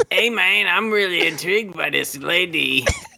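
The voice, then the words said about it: Fake Mexican accent. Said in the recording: “that fake Mexican accent ... He turns it on and on off”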